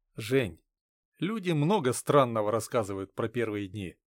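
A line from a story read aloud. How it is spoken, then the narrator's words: Sighing. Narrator (Russian): вздохнув, сказал я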